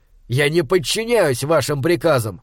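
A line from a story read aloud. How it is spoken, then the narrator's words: Scoffing. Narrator (Russian): хмыкнул Малаки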